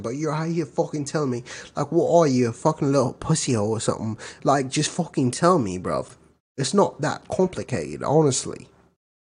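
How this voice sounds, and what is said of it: Put-on British accent. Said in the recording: “Your best British accent. ... Give me a fucking British accent. ... Pretty good.”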